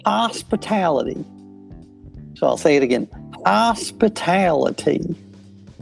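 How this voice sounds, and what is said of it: Bad put-on Southern accent. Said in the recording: “I think that's Southern hospitality. ... because the accent's so bad.”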